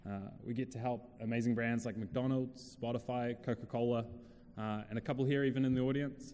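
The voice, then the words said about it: New Zealand accent. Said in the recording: “we started out down in New Zealand, hence my funny accent”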